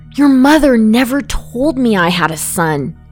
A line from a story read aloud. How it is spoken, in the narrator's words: Max sighed